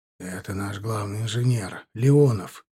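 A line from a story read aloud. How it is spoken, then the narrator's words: Whispered. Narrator (Russian): шепнул мне Дегтярев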